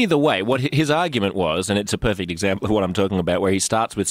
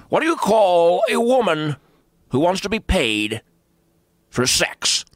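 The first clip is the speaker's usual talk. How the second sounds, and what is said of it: Imitation with Australian-sounding accent. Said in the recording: “you got to get rid of the Australian accent... I'm not saying I do Rush. I wouldn't claim to be a Rush impersonator.”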